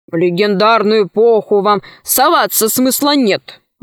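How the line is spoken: Grumbling. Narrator (Russian): ворчал он

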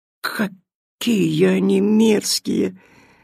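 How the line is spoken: Sobbing. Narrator (Russian): всхлипывала Митиль

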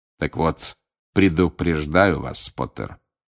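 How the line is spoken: Menacing, silky voice. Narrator (Russian): угрожающим вкрадчивым голосом продолжал Снег

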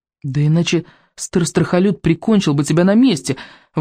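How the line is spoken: Frightened exclamation. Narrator (Russian): воскликнул Икинг, уже всерьез испугавшись за Рыбьенога

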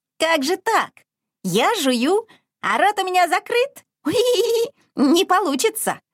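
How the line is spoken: Incredulous piglet squeak. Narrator (Russian): недоверчиво пискнул поросенок

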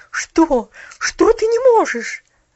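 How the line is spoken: Incredulous exclamation. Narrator (Russian): воскликнула миссис Керю, как будто сомневаясь в том, что ее уши слышат правильно

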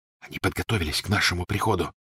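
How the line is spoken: Whisper. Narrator (Russian): прошептал Гарри

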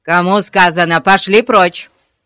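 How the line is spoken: Sharp bark. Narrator (Russian): рявкнул мистер Гун

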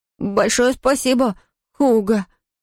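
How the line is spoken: Stammering. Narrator (Russian): заикаясь, выговорил он

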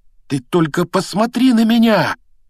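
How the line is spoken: Exclaiming. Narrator (Russian): воскликнул он

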